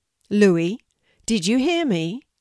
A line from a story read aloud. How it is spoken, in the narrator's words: asked Mum